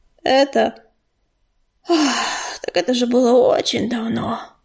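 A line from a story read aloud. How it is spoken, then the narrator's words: Heavy sigh. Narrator (Russian): тяжело вздохнул он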